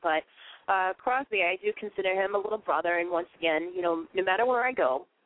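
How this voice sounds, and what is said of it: Boston accent. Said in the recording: “I know I have a Boston accent. Sometimes I talk kind of funky ... I talk very funny”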